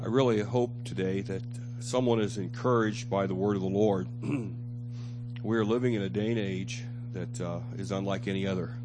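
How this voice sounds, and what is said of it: Strained, struggling voice. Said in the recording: “Forgive my voice. ... It's still a little struggling, having a little struggle today”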